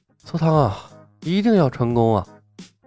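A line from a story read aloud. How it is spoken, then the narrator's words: Nervous murmur. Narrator (Chinese): 李牧有些紧张，喃喃自语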